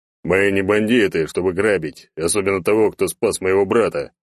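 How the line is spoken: Deep bass from huge man. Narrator (Russian): пробасил огромный мужик

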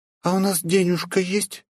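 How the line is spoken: Embarrassed question. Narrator (Russian): смущенным голосом спросила у меня Полина

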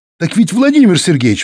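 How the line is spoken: Cheerful exclamation. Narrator (Russian): воскликнул веселый Костя

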